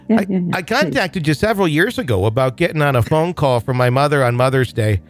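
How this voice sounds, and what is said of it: Put-on Minnesotan accent. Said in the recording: “should I read this in a Minnesotan accent ... Would you do it in that accent, please?”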